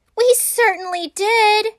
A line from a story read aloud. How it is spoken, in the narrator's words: cried all the kids